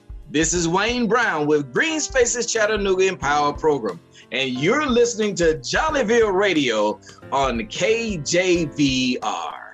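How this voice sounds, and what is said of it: Put-on radio announcer voice. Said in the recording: “I can put my radio voice on.”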